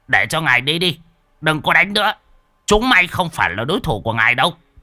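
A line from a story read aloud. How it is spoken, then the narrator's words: Old master's shout. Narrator (Vietnamese): lão sư phụ đã quát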